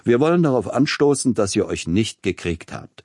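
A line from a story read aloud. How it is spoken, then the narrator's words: Booming laugh. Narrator (German): wandte er sich mit einem besonders dröhnenden Lachen an seine Frau und an Peter Iljitsch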